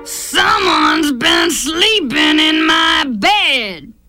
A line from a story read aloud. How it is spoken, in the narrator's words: he growled